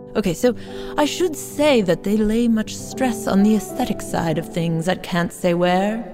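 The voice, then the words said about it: Fake British accent. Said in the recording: “I really am tempted to do this in a fake British accent”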